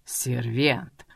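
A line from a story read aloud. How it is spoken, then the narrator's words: Through gritted teeth. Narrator (Russian): Процедил сквозь зубы Кент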